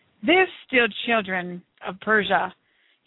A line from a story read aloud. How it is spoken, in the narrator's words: he bellowed over the loudspeakers